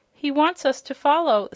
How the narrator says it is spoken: said the boy, gasping in amazement at this wonderful transformation

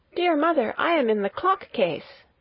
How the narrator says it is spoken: a soft voice cried

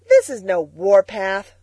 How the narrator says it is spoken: scoffed Billy

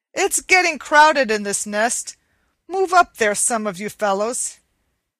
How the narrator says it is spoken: Cluckety Cluck, the oldest egg of all, called out angrily

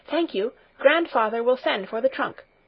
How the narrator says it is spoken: she said hastily

